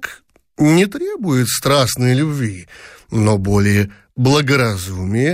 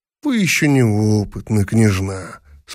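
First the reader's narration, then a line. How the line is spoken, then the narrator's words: Calm. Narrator (Russian): спокойно сказал император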